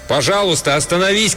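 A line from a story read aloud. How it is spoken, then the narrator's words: Shouted after someone. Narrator (Russian): крикнул я ему в спину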